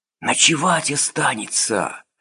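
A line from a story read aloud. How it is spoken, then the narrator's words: Rustling whisper. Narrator (Russian): шелестел шепот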